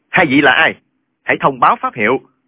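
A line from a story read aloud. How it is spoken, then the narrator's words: Shout. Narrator (Vietnamese): Chàng bèn quát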